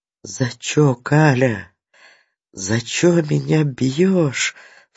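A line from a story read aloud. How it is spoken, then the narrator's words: Muffled sobbing. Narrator (Russian): всхлипывал, закрывая лицо своими маленькими девичьими руками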